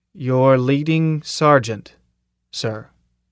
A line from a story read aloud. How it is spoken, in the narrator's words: the assassin said slowly